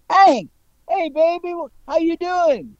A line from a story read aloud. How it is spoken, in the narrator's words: one of the guys yelled